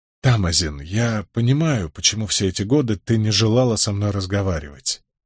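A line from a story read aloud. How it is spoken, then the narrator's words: Said softly. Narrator (Russian): мягко произнес я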